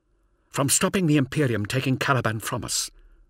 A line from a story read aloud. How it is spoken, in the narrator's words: snapped the third man